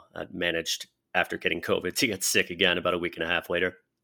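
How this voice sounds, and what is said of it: Sick, unwell-sounding voice. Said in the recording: “As you can tell from my voice, I am still not completely well.”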